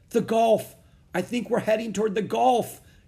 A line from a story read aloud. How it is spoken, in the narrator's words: cried